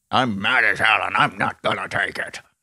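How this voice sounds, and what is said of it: Impression of Network's famous rant. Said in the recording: “That's a great impression. ... the movie is Network”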